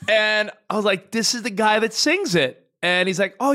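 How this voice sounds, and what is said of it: Usual voice. Nothing is said of it.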